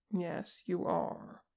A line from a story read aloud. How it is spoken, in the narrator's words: Vegas murmured